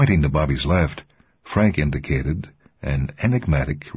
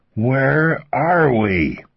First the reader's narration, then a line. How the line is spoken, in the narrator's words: Raising his voice even further, Bobby shouted above the tumult